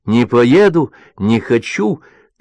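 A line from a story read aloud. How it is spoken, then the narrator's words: Shouting in protest. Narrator (Russian): она кричала на финляндском вокзале, прощаясь с отцом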